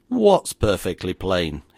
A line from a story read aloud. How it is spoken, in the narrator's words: he demanded, more gruffly perhaps than etiquette would have sanctioned